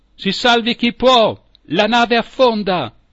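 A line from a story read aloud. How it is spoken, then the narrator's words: Alarmed shout. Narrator (Italian): il nostro capitano a gettare quel grido d'allarme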